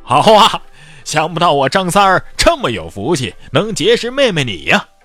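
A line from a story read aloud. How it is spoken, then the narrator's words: Hearty laughter. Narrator (Chinese): 裘冉克大笑道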